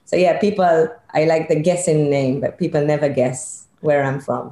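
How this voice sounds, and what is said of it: Mixed British Israeli accent. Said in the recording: “the really wicked cool accent that you have is because you're Israeli... I'm British Israeli... my accent became a total mess.”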